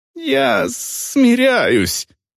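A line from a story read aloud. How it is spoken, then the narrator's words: Squeak. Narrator (Russian): пискнул Гудворр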